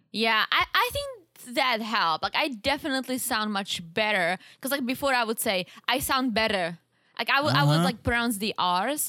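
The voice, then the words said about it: Speaks with a noticeable accent. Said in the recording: “It didn't work, as you can hear... I still have an accent”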